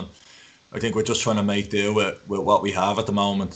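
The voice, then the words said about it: Dublin Irish accent. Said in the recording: “you're all still keeping your Dublin accent”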